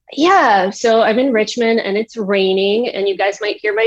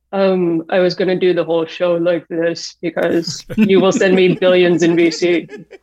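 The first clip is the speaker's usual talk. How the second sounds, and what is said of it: Imitates another person's voice. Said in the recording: “I actually am cosplaying as Elizabeth Holmes right now ... Can you do the voice?”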